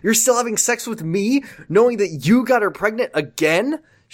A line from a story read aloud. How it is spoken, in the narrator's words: She asked angrily